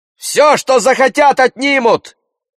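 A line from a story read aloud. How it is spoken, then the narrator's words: Young man shouting. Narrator (Russian): выкрикнул какой-то юнец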